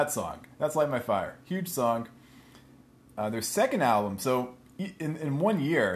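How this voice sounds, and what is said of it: Usual voice. Nothing is said of it.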